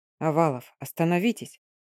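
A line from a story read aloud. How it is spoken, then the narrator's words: Quiet speech. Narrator (Russian): тихо сказал молодой ротмистр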